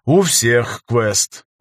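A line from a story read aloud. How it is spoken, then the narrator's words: Sigh. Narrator (Russian): вздохнул я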